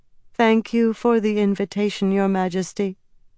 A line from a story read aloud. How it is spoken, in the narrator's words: Sylvaise said evenly, her voice a faintly eerie monotone